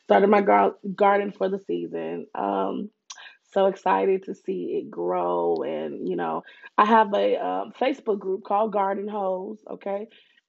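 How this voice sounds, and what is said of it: Congested, nasal voice. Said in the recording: “killing my nasal cavity ... Excuse my voice again, allergies”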